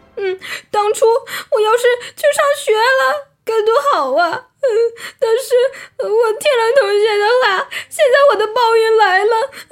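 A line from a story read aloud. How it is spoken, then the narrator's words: Wailing, self-reproaching. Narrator (Chinese): 不幸的匹诺曹开始哇哇大哭，埋怨自己说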